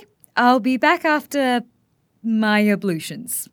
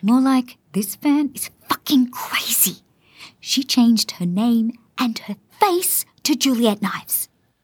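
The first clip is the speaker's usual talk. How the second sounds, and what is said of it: Whispering. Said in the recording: “Why are you whispering?”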